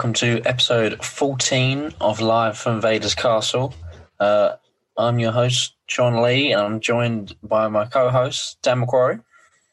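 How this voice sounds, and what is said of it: Slightly croaky voice. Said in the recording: “my voice is slightly croaky after uh, celebrating England's goal yesterday and then shouting at the TV”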